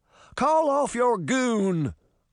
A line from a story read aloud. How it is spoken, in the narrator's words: the little man cried